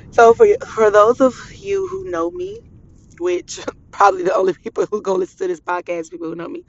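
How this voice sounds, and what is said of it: Voice strained from crying. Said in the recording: “I'm sorry, my voice is like this. I've been crying so much.”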